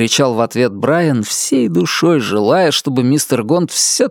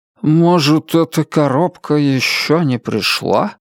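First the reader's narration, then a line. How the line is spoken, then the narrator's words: Uncertain mumble. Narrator (Russian): неуверенно пробормотал мистер Гонт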